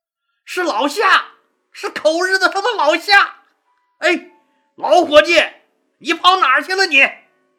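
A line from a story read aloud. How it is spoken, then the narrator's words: Joyful shout. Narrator (Chinese): 樊哙惊喜的大喊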